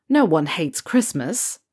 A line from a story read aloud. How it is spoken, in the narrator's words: Ron scoffed, though his grin never left his face